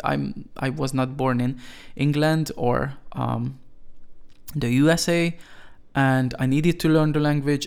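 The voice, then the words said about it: Non-native English accent. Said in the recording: “People like criticizing me for my pronunciation ... I'm always going to have this accent”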